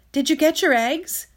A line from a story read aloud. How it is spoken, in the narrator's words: I blurted out